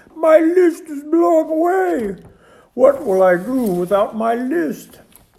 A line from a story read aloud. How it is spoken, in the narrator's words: cried Toad